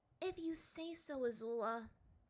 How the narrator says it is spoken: Ty Lee sighed

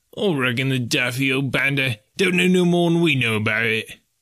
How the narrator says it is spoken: growled the sailor

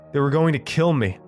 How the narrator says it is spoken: I blurted out

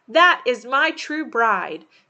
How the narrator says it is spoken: he cried

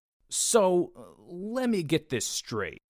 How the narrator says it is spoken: I said in my best indignant tone

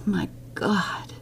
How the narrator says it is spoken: she whispered

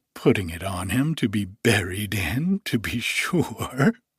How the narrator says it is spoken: replied the woman with a laugh

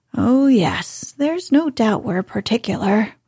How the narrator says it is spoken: Lord Warburton murmured

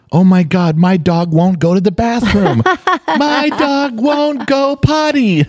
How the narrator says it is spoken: she's screaming

